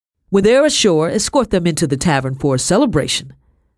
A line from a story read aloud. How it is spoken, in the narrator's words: said loudly